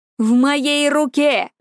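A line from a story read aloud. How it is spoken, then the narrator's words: Triumphant shout. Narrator (Russian): Победоносно прокричал Персей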